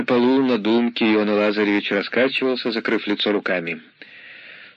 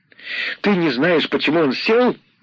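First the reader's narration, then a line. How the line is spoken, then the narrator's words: Shout. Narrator (Russian): крикнула Фома Борисовна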